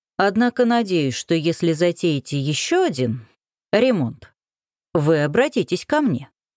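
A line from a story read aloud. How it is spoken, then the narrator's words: Plain. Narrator (Russian): сказал Крутогоров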